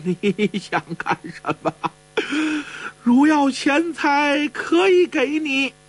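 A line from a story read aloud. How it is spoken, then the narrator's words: Abbot, panicked trembling voice. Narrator (Chinese): 住持再也掩饰不住了，惊慌失措，颤声说道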